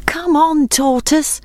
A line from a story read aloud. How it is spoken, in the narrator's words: called his friends anxiously